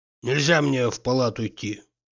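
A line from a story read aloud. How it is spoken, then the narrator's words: Gloomy. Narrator (Russian): мрачно проговорил Тарантьев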